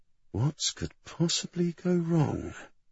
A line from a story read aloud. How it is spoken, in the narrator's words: Julie muttered to himself